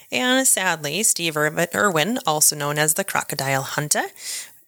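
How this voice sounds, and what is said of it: Failed attempt at Australian accent. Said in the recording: “I will never do an Australian accent again. That wasn't really Australian. I panicked at the end.”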